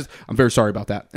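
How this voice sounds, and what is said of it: Very fast, flat delivery. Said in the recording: “She says it so fast.”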